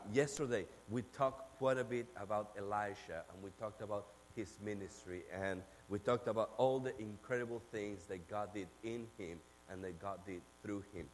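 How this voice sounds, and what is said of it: Argentine accent in English. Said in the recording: “yes, I do have an accent. ... I'm from Argentina ... But yes, I do have an accent.”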